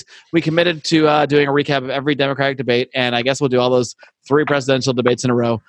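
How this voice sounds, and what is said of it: Strained, failing voice. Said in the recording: “my voice is literally dying”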